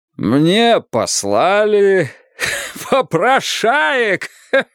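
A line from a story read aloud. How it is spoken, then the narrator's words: Louder, then laughing. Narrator (Russian): Сказал он громче и начал смеяться вместе с Богом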